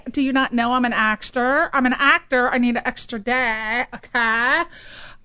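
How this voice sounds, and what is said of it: Put-on Valley girl accent. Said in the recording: “Not with the Valley accent, preferably”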